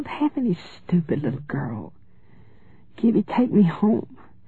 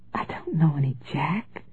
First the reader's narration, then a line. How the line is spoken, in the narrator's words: she said in a frail, fretful child's whimper